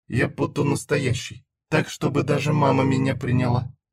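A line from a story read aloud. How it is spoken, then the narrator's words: Muttering to herself. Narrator (Russian): бормотала Зена сама себе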